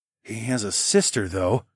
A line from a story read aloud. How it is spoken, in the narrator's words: I murmured